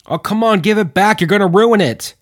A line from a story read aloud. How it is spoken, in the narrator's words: Mills yelled out with Beans following suit